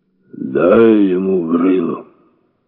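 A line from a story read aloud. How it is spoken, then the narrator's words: Unexpectedly clear voice. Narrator (Russian): Неожиданно ясным голосом предложил сзади Стась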